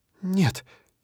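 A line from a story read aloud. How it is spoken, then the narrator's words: Quiet embarrassed breath. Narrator (Russian): тихо выдыхает Мел, закусывая в смущении нижнюю губку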